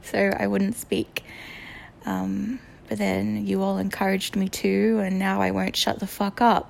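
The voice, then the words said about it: Speaker's own accent. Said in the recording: “I was embarrassed by my accent”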